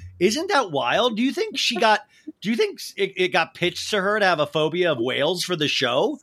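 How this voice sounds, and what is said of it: Usual voice. Nothing is said of it.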